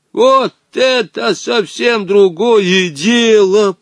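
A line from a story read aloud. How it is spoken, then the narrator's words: Hoarse. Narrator (Russian): прохрипел Женя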